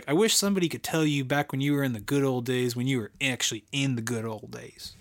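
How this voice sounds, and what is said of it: Put-on Southern accent. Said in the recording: “I said it with a Southern accent.”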